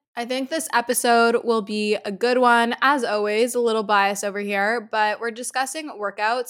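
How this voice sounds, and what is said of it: Raspy voice from a cold. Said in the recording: “I have had a head cold like this whole week ... my voice definitely keeps going ... if my voice gets a little raspy”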